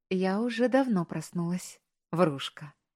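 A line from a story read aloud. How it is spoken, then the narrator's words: Gentle chiding. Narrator (Russian): мягко пожурил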